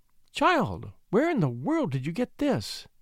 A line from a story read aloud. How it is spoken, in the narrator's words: she cried